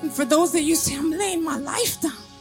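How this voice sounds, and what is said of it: Emotional, voice breaking. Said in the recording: “Sorry, I'm getting emotional”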